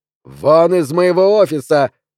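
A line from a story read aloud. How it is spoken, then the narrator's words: Shout. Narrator (Russian): крикнул он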